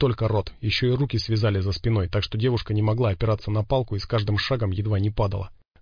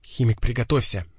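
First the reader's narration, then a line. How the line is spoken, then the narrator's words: Whisper. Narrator (Russian): зашептал пригоршня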